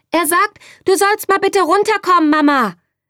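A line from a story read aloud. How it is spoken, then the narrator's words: Calling out. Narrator (German): rief Bärbel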